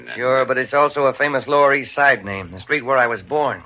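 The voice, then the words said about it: New York accent. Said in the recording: “He's lost his Western accent ... If I talk anything, I'd talk straight New York”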